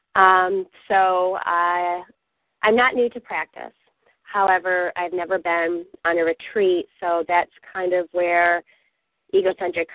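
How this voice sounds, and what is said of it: Raspy voice from a cold. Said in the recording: “I'm getting over a cold, so I apologize if I cough or if my voice sounds raspy ... you want to break into a blues song at any moment sound”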